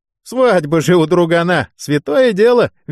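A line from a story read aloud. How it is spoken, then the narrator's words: Cheerful snort. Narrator (Russian): весело хмыкнул сержант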